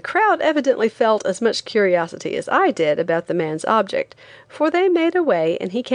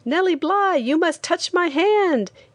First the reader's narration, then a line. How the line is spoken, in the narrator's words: said excitedly